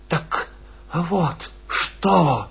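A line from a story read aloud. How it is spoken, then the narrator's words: Breathless muttering. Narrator (Russian): задыхаясь, забормотал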